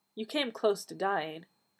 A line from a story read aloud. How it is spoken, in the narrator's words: the doctor said gently